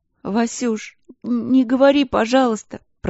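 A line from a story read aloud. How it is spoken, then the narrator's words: Sobbing little girl. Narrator (Russian): Продолжала всхлипывать сестренка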